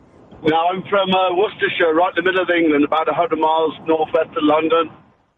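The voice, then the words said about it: English accent. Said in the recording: “by your accent, you sound like you're not from Florida.”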